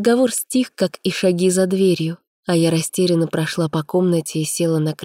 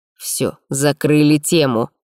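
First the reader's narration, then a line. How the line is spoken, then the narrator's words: Stern, curt. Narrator (Russian): строго бросил Вилмар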